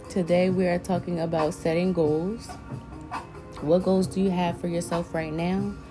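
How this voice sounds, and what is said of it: Slightly scratchy voice. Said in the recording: “my voice is a little scratchy today. I woke up with a sore throat.”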